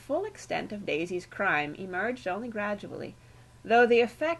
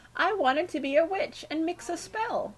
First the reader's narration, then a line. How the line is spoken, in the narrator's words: she sobbed to the stony-faced Bagthorpes